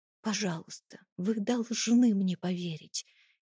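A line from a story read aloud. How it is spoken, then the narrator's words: Quiet pleading whisper. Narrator (Russian): тихо прошептала я, пытаясь хоть как-то донести свою правду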